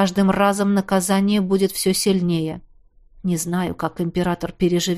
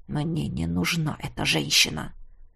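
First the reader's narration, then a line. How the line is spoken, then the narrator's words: Through gritted teeth. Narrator (Russian): процедил Кариан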